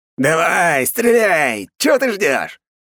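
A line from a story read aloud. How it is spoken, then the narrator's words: Yelling. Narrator (Russian): орал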